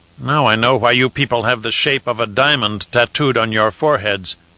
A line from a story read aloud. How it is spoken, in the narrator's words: Hezban growled